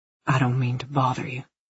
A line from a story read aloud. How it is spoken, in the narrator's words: he whispered